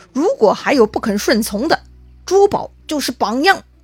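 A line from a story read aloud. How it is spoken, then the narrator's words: Stern, harsh. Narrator (Chinese): 高定厉声对众人说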